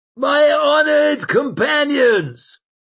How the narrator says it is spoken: bellowed the old man

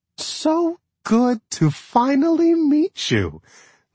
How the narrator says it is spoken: Leah chanted, her voice even more sugary than on the phone

